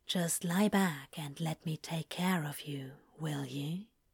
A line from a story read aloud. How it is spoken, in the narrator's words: he whispered